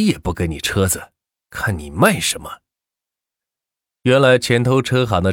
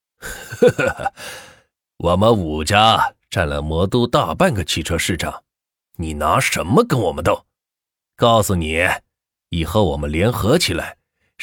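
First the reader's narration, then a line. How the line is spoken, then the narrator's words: Group, smiling. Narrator (Chinese): 五个人相视一笑说道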